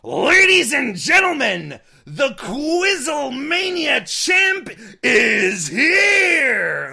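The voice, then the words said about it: John Cena impression sounding like Vince McMahon. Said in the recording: “say this in your best Cena impression ... my Cena impression oddly sounds like Vince McMahon”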